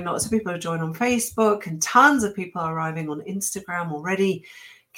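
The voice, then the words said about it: Slightly squeaky, sick voice. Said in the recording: “I'm sick. ... my marginally squeaky voice ... without coughing”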